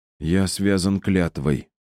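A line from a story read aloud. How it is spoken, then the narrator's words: Dejected. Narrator (Russian): уныло сказал Пьер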